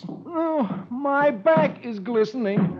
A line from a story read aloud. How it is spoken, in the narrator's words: Dagwood, who's beginning to get tired, groans